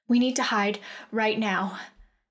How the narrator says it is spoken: Shale said in a panicked voice

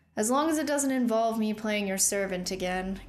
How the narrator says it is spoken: Killian sighed

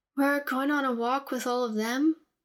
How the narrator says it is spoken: Zelina asked in a bored voice

